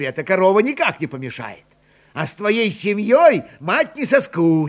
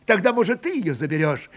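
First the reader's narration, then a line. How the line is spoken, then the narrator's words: Cheerful question. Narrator (Russian): весело спросил он у Варвары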